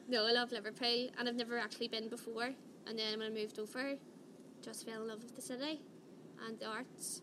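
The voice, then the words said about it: Irish accent. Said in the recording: “Irish accents? ... I'm trying to talk a bit slow with mine today.”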